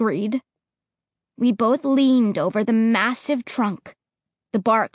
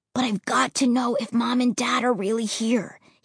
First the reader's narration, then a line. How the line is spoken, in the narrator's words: he whispered, his eyes frightened, pleading